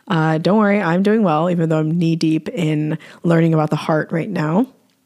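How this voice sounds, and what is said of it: Hoarse, strained voice. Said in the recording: “my voice is breaking down, I apologize for any hoarseness”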